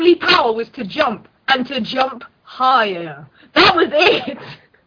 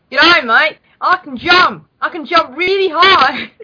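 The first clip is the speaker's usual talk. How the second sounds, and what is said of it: Put-on Australian accent. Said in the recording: “she's Australian, so she'd be like ... That was quite good.”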